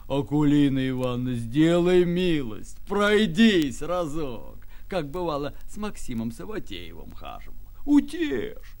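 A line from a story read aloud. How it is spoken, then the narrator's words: Pleading, unusually deep voice. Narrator (Russian): стал просить ее необычно густым голосом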